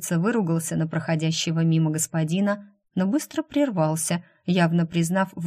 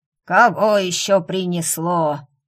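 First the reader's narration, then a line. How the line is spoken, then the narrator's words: Hoarse old voice. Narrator (Russian): хриплый старческий голос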